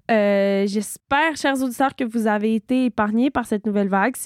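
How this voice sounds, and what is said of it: Slightly sick, congested voice. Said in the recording (French): “le léger accent de COVID dans ma voix”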